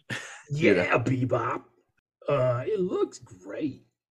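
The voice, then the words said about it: Impression of Bebop's voice. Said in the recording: “I don't know why I did my Bebop impression as Rocksteady.”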